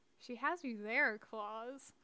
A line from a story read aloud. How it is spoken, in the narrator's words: Lilith murmured